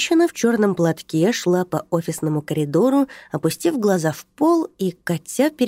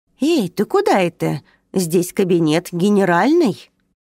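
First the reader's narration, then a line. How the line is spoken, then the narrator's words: Indignant speech. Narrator (Russian): она возмущенно проговорила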